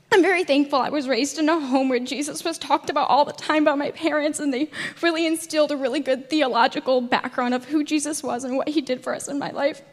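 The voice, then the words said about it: Emotional, tearful, slightly nervous voice. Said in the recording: “I'm a little emotional... They're all happy and just slightly nervous tears”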